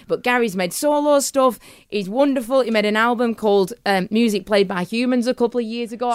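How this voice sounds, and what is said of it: Strong regional English accent. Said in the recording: “I love your accent, by the way. How does anyone understand you?”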